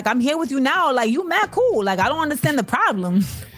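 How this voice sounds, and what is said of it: Imitated Bronx accent. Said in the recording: “Bronx accent ... my Cardi is very solid”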